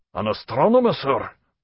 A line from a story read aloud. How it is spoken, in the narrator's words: asked the master eagerly